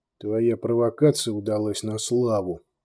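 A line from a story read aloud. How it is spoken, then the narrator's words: Muttered grumble. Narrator (Russian): буркнул Кейн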